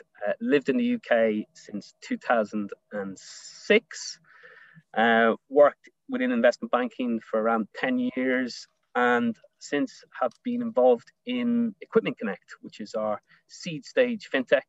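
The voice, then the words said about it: Irish accent. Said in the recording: “Irish, as you can probably tell from my accent”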